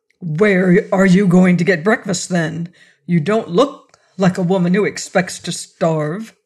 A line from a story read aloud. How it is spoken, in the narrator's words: growled out